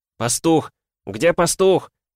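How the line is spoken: Shouting. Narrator (Russian): закричал Игрорыцарь

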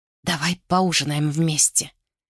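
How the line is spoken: Near whisper. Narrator (Russian): почти прошептал он

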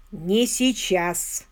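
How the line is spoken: Plain. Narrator (Russian): сказал он

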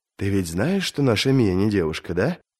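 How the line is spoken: Whispering woman. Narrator (Russian): Толстуха Мадди нашептала об этом своей госпоже

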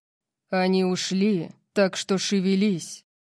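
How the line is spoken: Sudden loud growl. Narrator (Russian): Прорычал он, заставив меня вздрогнуть от внезапной громкости

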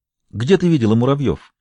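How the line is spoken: Suppressed excitement, quiet calm. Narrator (Russian): Гамаш старался скрыть возбуждение и заставлял себя говорить тихим, спокойным голосом

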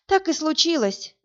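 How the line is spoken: Sigh. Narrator (Russian): вздохнула Инна

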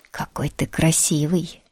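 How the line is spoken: Soft, tender. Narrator (Russian): Александр говорил мягко, ласково

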